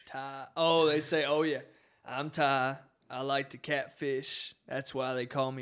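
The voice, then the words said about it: Country accent. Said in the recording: “It's a country accent, man. ... it's your accent.”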